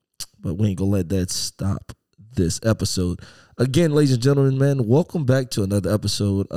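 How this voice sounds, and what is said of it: Raspy, hoarse voice. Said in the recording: “my throat decided to be a little raspy on today”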